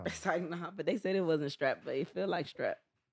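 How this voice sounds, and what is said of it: Sick voice, cutting in and out. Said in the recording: “My voice is like in and out though. I'm really sick.”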